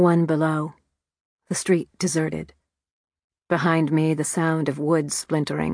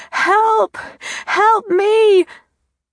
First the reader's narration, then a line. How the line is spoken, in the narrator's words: howled